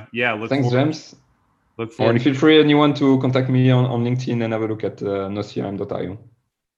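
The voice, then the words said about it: French accent. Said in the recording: “my French accent ... The French accent, is awesome.”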